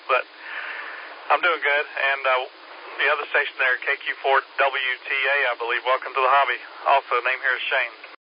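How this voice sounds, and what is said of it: Weak voice from a cold. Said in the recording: “fighting a cold all weekend... My voice is not as strong as it was yesterday. I sound worse than I feel”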